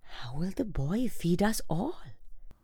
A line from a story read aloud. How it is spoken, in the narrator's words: they got hungrier and hungrier, they wondered and whispered